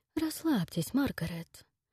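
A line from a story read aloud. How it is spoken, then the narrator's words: Spoke softly. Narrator (Russian): мягко проговорил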